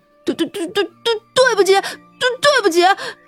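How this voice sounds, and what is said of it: Frightened stuttering voice. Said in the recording (Chinese): “吓得薛田口吃”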